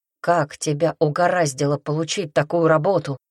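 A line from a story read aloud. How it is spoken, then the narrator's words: Gentle question. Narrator (Russian): мягко спросил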